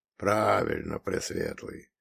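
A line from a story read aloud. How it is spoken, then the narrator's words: Grumbling forest spirit. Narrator (Russian): буркнул леший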